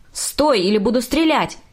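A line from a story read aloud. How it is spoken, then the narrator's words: Policeman shouting. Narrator (Russian): кричал полицейский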